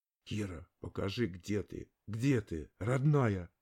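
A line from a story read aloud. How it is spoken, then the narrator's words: Desperate shout. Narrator (Russian): В отчаянии крикнул я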